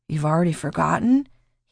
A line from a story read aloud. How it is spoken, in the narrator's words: He chuckled wearily